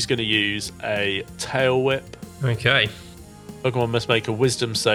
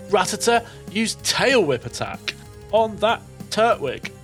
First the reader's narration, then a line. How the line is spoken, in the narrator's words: Josephine is going to shout straight away upon seeing this